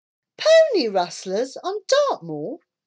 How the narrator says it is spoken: said Debbie, laughing

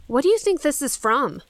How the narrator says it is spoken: Claire asked

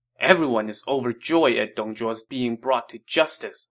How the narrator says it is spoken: Wang Yun said angrily

